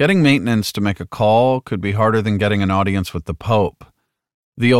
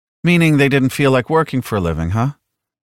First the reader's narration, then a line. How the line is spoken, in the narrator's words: She chuckled sympathetically